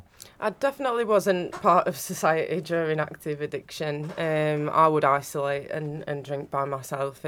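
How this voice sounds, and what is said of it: Northern English accent. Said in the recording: “I'm not from around here. You can tell with my accent. ... No. Northern.”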